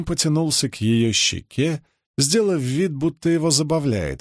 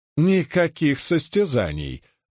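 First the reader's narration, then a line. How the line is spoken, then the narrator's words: Laughing. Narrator (Russian): засмеялась Каролайн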